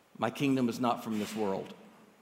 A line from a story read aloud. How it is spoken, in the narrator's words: Jesus stood there bruised and whispered to Pilate through parched lips